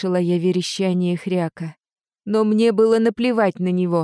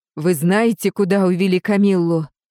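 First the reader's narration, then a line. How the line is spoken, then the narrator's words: Growling undertones. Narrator (Russian): В моем голосе все еще прослеживались рычащие нотки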